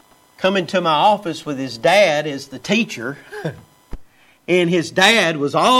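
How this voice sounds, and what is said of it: Usual voice. Nothing is said of it.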